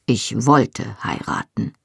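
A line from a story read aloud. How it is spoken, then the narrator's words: Firm voice. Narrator (German): sagte Jamie mit fester Stimme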